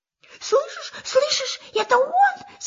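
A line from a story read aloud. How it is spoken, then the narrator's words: Frightened. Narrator (Russian): сказал пятачок испуганно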